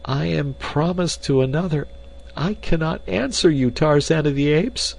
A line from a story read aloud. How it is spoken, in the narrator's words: she cried